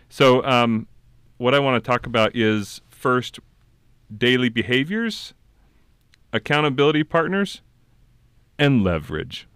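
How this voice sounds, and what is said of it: Smooth late-night radio DJ voice. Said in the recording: “It's like a late night FM DJ radio voice.”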